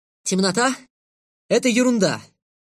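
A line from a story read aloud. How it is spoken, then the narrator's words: Loud. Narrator (Russian): Громко сказал я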